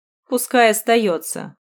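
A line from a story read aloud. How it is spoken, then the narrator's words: Snort. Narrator (Russian): хмыкнул Гриня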